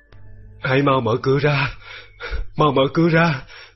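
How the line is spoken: Delirious old man moaning. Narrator (Vietnamese): khi cụ cố hôn mê, trong lúc mơ màng, ông thường rên rỉ gọi tên tôi và bảo

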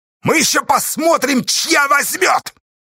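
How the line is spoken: Sudden yell. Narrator (Russian): Вдруг заорал он

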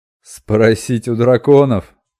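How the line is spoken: Thunderous laughter. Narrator (Russian): Лорд Грох оглушительно расхохотался

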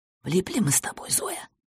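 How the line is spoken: Elderly man whispering. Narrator (Russian): прошептал пожилой сосед

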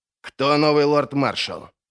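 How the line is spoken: Angry question. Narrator (Russian): зло спросил Крой

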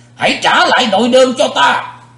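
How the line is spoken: Roaring bellow. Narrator (Vietnamese): Sự diện quái ma dục rống lên một tiếng, quát

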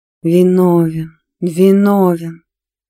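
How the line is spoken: Moaning ghostly maidens. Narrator (Russian): Простонали две призрачные девы

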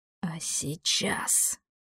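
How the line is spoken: Sinister whisper, demon. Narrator (Russian): зловещим шепотом спросил демон

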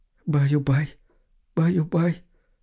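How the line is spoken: Tearful whisper. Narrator (Russian): шептала женщина сквозь слезы

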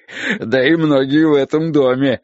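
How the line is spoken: Sudden loud laughter. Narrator (Russian): внезапно расхохотался Хозе

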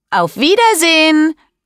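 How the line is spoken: Calls out. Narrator (German): ruft

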